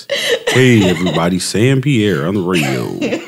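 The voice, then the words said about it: Put-on radio announcer voice. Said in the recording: “This is my radio voice.”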